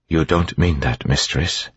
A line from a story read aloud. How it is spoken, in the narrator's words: Sazed said calmly